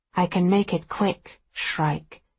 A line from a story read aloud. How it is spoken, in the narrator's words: he says quietly